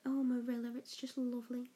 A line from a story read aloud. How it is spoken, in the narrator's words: said